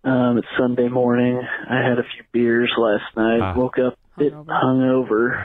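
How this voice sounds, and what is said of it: Low, depressed-sounding voice. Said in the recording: “sounds depressed.”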